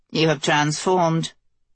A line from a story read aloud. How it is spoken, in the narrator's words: the Fetch stated flatly